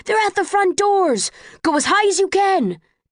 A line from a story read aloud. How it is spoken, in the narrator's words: People in Erudite blue shouting things at each other